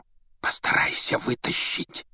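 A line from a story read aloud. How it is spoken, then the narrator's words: Whisper. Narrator (Russian): шепнул Рон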